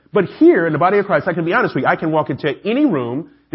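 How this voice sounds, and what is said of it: Atlanta Southern accent. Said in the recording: “I'm the only guy from Atlanta, right? When my accent gives me away.”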